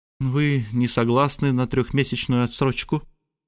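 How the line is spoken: Gloomy question. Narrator (Russian): мрачно спросила леди Лор

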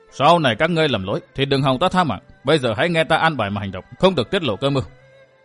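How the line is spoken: Very stern. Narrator (Vietnamese): bảo với năm người bằng một giọng rất nghiêm khắc

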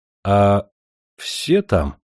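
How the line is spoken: Timid question. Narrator (Russian): робко спросил я

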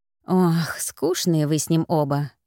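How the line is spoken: Languid sigh. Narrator (Russian): Анжела томно вздохнула

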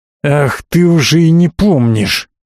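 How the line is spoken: Angry hiss, old man. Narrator (Russian): Зло зашипел сердитый дед

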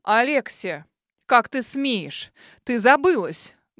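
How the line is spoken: Thunderous growl. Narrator (Russian): Громогласно рыкнул мистер Хью

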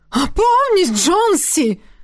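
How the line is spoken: Sharp cry. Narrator (Russian): выкрикнула Эдрена

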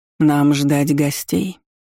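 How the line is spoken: Hoarse witch asking. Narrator (Russian): охрипшим голосом уточнила ведьма

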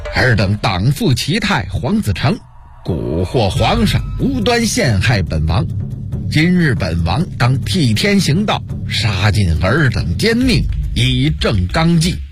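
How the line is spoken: Stern shout. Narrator (Chinese): 朱棣厉声喝道

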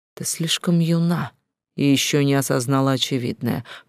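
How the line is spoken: Soft yet mocking. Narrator (Russian): улыбаясь вроде бы и мягко, но в то же время издевательски

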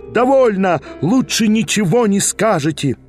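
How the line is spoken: Crowd shouting. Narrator (Russian): Вопили, даже иные из дам кричали

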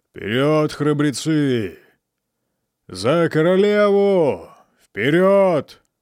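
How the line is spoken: Calm booming shouts, old man. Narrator (Russian): Старый генерал, спокойный, как на параде, не переставал выкрикивать своим зычным голосом

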